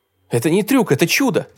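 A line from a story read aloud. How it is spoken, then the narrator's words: Exclaimed. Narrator (Russian): воскликнул Василий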